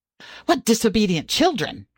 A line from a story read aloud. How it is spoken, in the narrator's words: cried the water rat